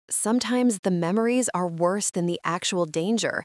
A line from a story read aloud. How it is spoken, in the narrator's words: whispers